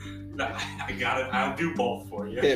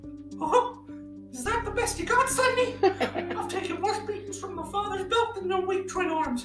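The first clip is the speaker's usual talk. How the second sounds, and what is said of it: Mickey Mouse cartoon voice. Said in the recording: “Just do Mickey Mouse again ... We'll start with Mickey.”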